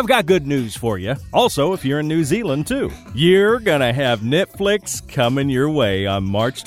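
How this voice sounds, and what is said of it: Usual voice. Nothing is said of it.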